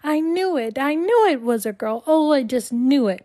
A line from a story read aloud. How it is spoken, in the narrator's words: I started shrieking